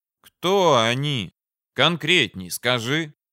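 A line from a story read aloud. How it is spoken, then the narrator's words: Weary, regretful sigh. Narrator (Russian): Устало вздохнул я, уже жалея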